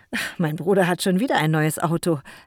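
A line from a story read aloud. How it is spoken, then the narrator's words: Laughing. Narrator (German): lachte Jako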